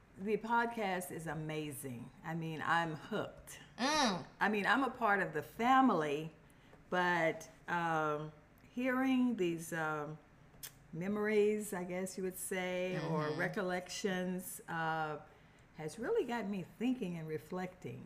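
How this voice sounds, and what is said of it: Hoarse voice. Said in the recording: “I'm a little hoarse, everybody. ... I'm a little hoarse”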